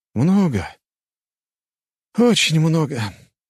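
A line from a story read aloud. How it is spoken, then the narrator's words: Sighing. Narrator (Russian): вздохнул я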